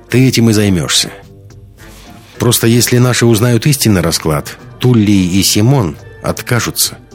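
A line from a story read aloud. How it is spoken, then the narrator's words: Plain. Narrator (Russian): сказала Лиска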